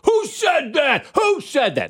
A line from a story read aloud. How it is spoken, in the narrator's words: starts screaming into the crowd